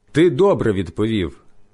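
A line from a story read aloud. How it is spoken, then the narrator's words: Plain. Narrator (Ukrainian): сказав Ісус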